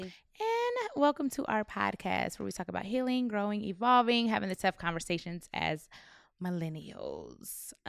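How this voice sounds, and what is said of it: Slightly raspy, crackly voice. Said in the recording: “A little raspy on my end. A little crackle, snap, crackle, pop.”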